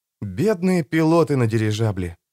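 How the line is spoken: Whisper. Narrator (Russian): прошептал Том

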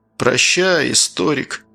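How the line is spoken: Gloomy, curt. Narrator (Russian): мрачно бросил надзиратель

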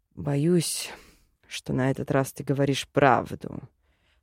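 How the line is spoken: Muttered. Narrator (Russian): пробормотал Линар

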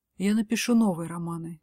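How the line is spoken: Dejected voice. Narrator (Russian): поникшим голосом отвечает София

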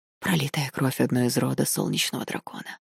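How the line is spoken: Whispered. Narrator (Russian): прошептал Эйю

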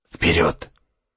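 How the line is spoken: Whispered. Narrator (Russian): шепнул разведчик

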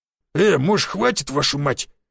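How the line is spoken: Hoarse growl, grimy vagrant. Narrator (Russian): хрипло зарычал чумазый бродяга

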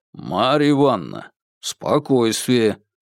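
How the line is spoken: Stern. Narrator (Russian): строго призвал Бабкин

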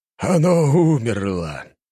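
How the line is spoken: Pleased exclamation. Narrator (Russian): довольно воскликнуло его сиятельство

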